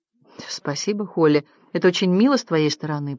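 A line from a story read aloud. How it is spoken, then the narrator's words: Mumbled. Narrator (Russian): пробормотал Дерек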